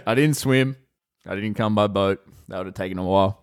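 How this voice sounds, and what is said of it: Thick Western Australian accent. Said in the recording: “thick accent, grew up in Western Australia”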